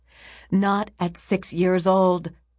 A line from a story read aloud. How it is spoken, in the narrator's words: Rameses shouted